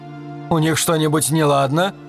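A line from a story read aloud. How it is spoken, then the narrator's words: Frightened question. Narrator (Russian): испуганно спросил Ширин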